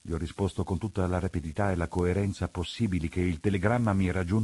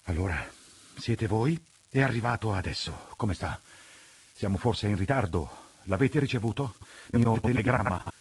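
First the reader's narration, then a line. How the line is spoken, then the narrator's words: Breathless questioning. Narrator (Italian): mi ha domandato, ansimando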